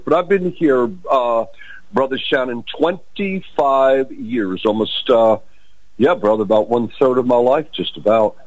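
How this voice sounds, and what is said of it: New York accent. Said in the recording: “You can tell by my accent from New York”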